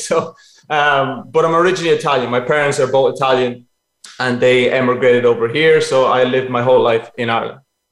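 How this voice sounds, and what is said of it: Irish accent. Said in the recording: “If you've got that accent ... You sound so Irish.”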